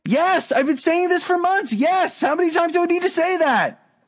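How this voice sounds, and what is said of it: Yelling loudly, excited. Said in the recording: “Stop yelling at me.”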